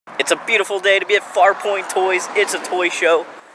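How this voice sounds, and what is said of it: Congested, allergy-affected voice. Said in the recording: “my allergies are acting up if you can hear it in my voice”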